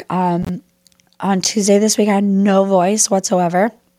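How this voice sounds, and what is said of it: Weak, recovering voice. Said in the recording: “tickle in my throat ... my voice is starting to come back”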